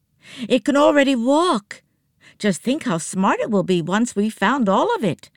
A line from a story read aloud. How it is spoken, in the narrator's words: Nancy exclaimed